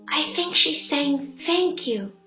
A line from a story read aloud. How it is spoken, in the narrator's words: he whispered to Andy